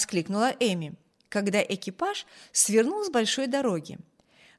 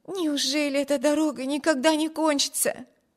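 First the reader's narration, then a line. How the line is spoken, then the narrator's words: Exclamation. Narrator (Russian): воскликнула Эми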